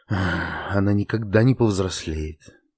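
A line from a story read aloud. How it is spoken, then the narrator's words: Sighing. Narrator (Russian): вздохнула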